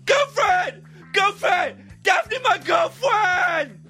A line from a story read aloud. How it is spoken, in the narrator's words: He shouted